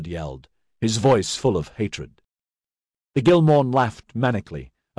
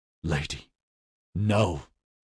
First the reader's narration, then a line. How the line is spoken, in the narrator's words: he murmured in anguish